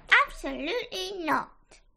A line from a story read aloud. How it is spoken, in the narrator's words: said Freya crossly